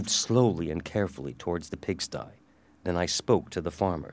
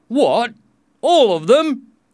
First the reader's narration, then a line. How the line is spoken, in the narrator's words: exclaimed one of the farmers